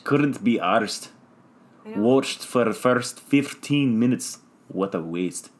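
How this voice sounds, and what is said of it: Convincing put-on accent. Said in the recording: “your fucking accent was on point there”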